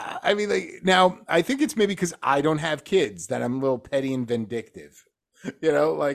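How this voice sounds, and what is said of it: Usual voice. Nothing is said of it.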